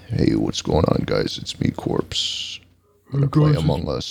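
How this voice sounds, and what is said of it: Slow, deep imitated voice. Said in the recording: “much slower and deeper ... do a corpse impression”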